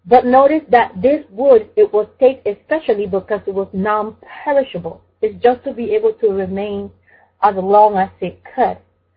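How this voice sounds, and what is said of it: Speaks with a noticeable foreign accent. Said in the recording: “sometimes my accent would allow me to say wood really bad”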